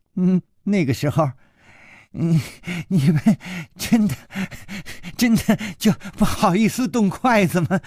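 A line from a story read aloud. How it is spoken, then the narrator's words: Laughing while eating. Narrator (Chinese): 她一边吃一边笑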